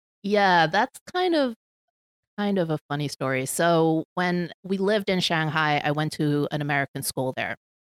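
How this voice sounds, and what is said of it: American English accent. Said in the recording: “you have a perfectly American English accent.”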